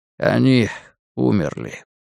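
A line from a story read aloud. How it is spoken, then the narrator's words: Quiet reply. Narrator (Russian): тихо ответил Ральф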